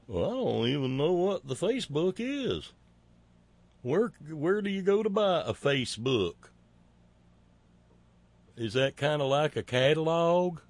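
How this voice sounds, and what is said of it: Put-on redneck accent as DeSantis. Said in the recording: “I'm imputing to him a redneck accent that he doesn't have”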